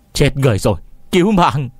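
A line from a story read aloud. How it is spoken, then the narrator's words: Terrified screaming. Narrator (Vietnamese): tên Tiểu Nhị đã sợ run như cầy sấy, gân cổ gào lên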